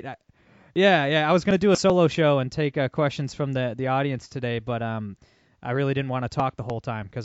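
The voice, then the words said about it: Sick, hoarse, fading voice. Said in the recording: “I'm actually sick as a dog ... I'm losing my voice.”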